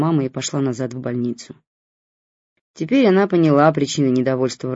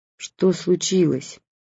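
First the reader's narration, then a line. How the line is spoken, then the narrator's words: Tired question, mother. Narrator (Russian): устало спросила мама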